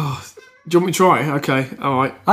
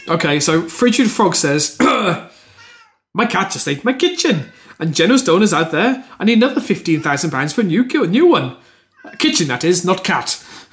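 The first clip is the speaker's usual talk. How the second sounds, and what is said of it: Poor attempt at Welsh accent. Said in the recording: “Could you do these in a Welsh accent? ... Is this your New Delhi accent? That's appalling. My Welsh accent is better. ... That was awful.”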